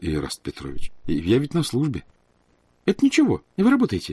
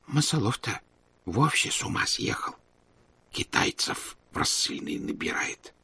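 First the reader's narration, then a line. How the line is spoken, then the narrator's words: Whisper. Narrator (Russian): прошептал Лука Львович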